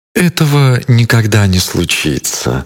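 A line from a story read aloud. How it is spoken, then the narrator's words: Plain. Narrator (Russian): ответила женщина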